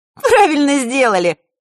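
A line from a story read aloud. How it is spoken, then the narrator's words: Short laugh. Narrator (Russian): хохотнула Захарра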